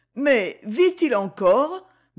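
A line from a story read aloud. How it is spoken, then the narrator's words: Shocked stammer. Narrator (French): balbutia-t-elle devant cette figure livide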